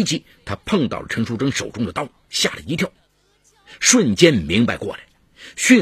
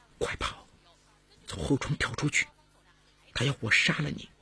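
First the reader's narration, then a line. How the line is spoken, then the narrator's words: Whispered. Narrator (Chinese): 悄声说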